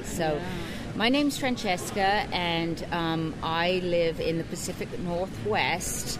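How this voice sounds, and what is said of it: Mixed British-American accent. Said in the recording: “you can probably hear my accent. It's sort of a weird accent, but I was born and raised in the UK, American father, English mother”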